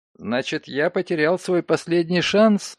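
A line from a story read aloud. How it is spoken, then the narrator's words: Laughing. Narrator (Russian): рассмеялся Ноултон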